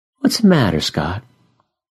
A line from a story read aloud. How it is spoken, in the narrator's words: I sigh